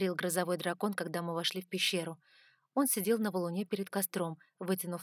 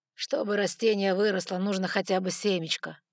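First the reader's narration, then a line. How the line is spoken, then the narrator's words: Tired reply. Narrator (Russian): устало ответил Габриэль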